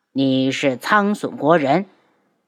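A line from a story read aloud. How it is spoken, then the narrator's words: Cold. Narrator (Chinese): 冷声道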